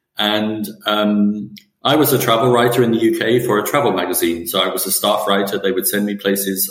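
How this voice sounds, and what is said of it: English accent. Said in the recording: “I grew up in England, as you can probably hear from my voice.”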